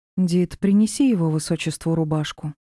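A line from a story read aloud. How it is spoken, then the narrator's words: Calm request. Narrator (Russian): спокойно попросила леди Тьюри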